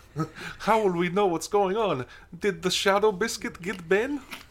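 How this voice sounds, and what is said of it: Attempted Lithuanian accent. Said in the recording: “That's not a Lithuanian accent... You sounded like Aaron Taylor Johnson's Quicksilver”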